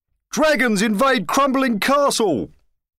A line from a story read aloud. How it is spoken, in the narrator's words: shouted the news crier